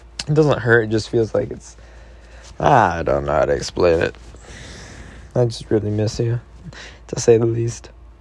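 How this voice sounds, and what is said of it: Slightly deeper, strained voice. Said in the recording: “I think it's dehydrated, so when I talk a lot, it kind of hurts ... my voice is a little bit deeper, too”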